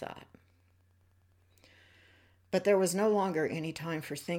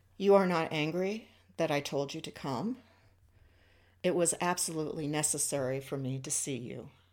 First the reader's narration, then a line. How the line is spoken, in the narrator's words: she said